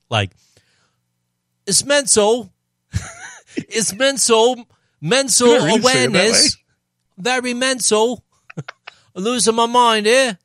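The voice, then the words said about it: Put-on UK accent. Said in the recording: “I heard that with a UK accent. ... Anytime someone says the word mental or mate, I instantly go that way.”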